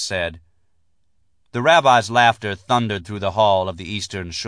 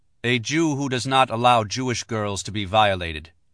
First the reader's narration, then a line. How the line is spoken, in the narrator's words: Max said